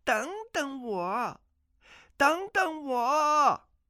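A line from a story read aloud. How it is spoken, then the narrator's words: Calling out. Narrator (Chinese): 阿紫展开轻功随后追来，叫道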